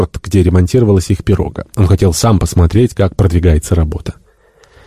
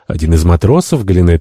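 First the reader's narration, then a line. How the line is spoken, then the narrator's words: Plain. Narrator (Russian): ответил Жак Элок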